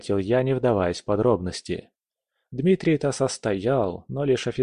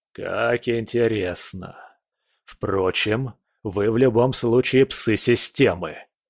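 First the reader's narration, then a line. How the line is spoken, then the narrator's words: Predator's words through teeth. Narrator (Russian): процедил хищник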